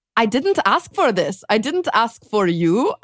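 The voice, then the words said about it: Ridiculous put-on character accent. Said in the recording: “do it in your like ridiculous NoHo Hank accent.”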